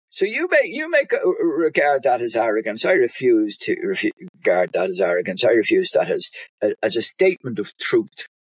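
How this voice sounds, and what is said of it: Irish accent. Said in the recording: “your lovely Irish accent. I wish I could talk in an Irish accent like you are”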